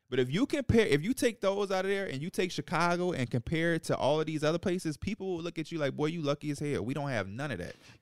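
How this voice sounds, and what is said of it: Chicago accent. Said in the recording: “That Chicago accent right there, too.”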